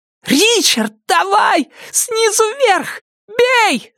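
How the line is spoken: Shouting. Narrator (Russian): закричала охотница

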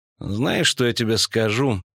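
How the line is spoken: Troubadour grumbling. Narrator (Russian): проворчал трубадур

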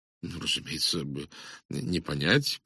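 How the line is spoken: Mumbled. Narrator (Russian): промямлил

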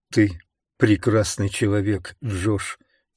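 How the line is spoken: Quiet. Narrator (Russian): тихо сказала она

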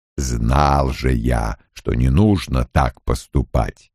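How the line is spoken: Mutter. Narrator (Russian): пробормотал Лоэл

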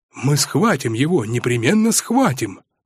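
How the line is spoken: Hot-tempered youthful exclamation. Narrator (Russian): С отроческой запальчивостью воскликнул Митя

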